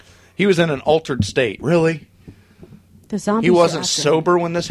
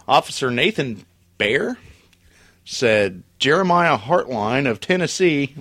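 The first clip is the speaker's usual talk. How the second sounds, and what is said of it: Put-on hillbilly accent. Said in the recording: “I did a hillbilly accent”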